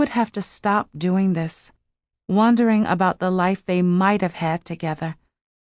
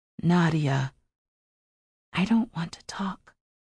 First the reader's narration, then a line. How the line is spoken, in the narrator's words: she whispered